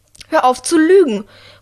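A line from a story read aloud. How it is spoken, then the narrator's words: Calling out. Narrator (German): ruft Drea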